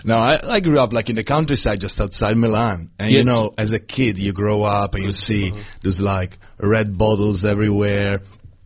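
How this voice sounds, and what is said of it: Slightly strong foreign accent. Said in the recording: “I'm not exactly from around here... just a slightly strong accent.”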